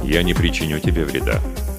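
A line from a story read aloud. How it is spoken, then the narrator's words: Calm. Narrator (Russian): спокойно произнес Джа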